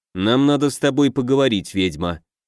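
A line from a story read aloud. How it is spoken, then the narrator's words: Mumbled. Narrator (Russian): он пробормотал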